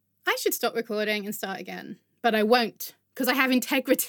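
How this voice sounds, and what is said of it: Usual voice. Nothing is said of it.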